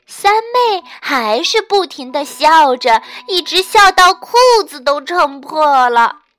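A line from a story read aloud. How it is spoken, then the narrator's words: Sighing. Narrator (Chinese): 胖胖的仆人一面叹气，一面对士兵说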